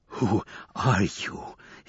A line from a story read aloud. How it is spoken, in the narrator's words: asked again, gasping for the words